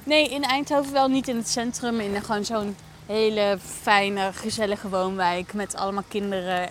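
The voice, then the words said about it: Brabant Dutch accent. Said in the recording (Dutch): “het zal je niet ontgaan misschien met mijn accent. Dat was in Brabant.”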